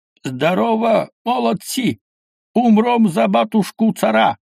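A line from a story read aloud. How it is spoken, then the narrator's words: Shouting to soldiers. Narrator (Russian): Герцог кричал солдатам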